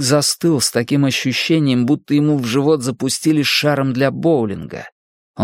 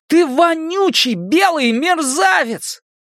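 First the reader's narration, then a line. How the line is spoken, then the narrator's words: Furious screaming. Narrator (Russian): Генри завопил от ярости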